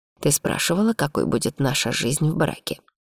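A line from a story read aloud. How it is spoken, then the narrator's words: Quiet reminder. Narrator (Russian): напомнил Арман тихо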